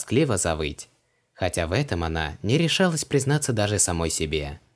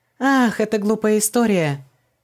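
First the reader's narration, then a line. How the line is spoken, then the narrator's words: Fake laughter. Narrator (Russian): Фальшиво засмеялась Ванесса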